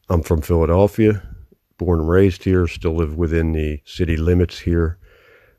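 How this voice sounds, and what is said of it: Philadelphia accent, East Coast with Midwest. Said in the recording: “You may be able to tell that by my accent if that comes through at some point. We don't think we have an accent in Philadelphia, but we actually do ... It's kind of like a cross between this like East Coast urban sound and accent, but mixed with some like Midwest Fargo sounded bullshit”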